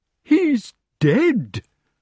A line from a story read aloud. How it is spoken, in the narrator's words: cried King Pellinore tragically